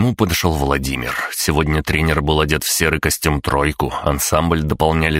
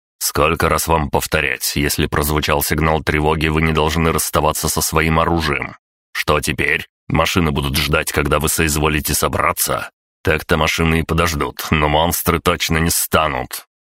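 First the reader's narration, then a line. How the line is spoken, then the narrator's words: Displeased tone. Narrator (Russian): недовольным тоном продолжил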